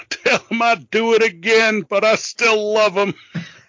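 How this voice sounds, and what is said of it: Impression of Terry Sullivan. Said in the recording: “That is such a good impression.”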